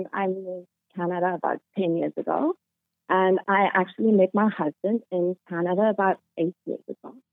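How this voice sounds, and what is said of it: South African accent. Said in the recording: “you have an accent ... I'm South African”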